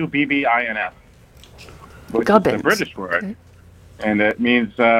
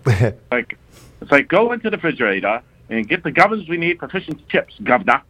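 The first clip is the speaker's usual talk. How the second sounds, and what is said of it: Put-on British accent. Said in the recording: “That's my best British imitation. ... It was good.”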